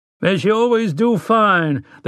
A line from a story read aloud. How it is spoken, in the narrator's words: the rancher cried